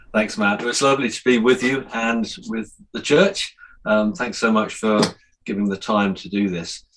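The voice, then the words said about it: Speaks with a noticeable accent. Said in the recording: “you've got a bit of an accent there”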